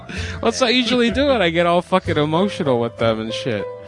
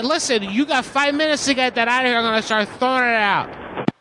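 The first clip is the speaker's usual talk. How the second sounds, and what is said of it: Angry, aggressive shouting tone. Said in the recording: “I'm being way too angry at this... It sounds like you're almost drunk”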